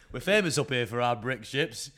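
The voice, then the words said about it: Put-on regional accent. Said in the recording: “Fuck up the accent.”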